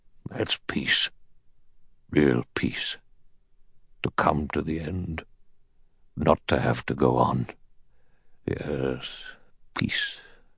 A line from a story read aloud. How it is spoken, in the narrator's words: he said in a low, strange voice